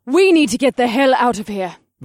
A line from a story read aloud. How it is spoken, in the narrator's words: Vanessa snapped